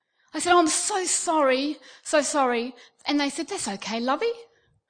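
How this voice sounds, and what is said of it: Australian accent. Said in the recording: “you're Australian. I said, yes. It's good. The accent helps me.”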